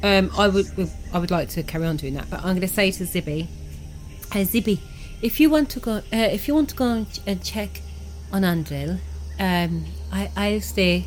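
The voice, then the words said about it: Put-on character accent, drifting. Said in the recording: “I don't know where my accent's going ... different accents rubbed off on her”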